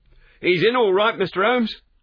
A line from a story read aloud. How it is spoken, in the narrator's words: cried a small street Arab running up to us